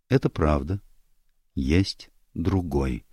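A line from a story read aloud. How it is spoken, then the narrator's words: Quiet reply. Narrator (Russian): она тихо ответила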